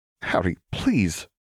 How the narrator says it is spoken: pleaded

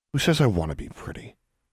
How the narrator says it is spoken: Alexandra muttered

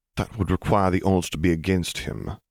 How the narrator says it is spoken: Piet replied dryly

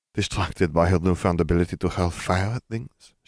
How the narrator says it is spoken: laughed

